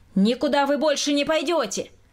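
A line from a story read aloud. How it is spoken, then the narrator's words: Shouted again. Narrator (Russian): Опять закричал Николай Васильевич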